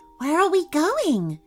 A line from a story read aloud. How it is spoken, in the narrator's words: she asked, her voice filled with awe